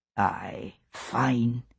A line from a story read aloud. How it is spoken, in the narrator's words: he whispered